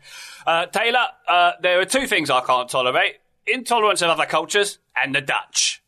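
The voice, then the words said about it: Imitates another person's voice. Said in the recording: “I just wanted to do my Michael Caine impression ... I feel better about that impression because I knew it was Michael Caine. Well done”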